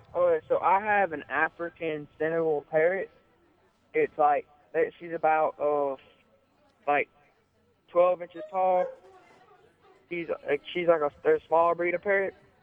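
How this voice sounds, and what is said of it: Southern American accent. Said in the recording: “you have such a Southern accent”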